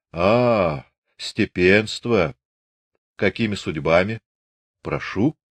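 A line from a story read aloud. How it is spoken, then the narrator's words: Condescending friendly deep bass. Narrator (Russian): в меру приветливо улыбаясь, снисходительно пробасил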